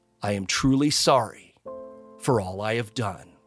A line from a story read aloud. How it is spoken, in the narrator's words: he said